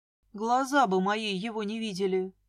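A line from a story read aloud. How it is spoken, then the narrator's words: Grumbling. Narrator (Russian): проворчала я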